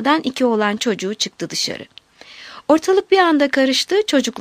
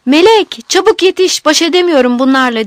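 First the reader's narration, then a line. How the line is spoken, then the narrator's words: Shouted. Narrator (Turkish): diye bağırdı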